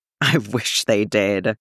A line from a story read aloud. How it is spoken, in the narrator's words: Sabine wheezed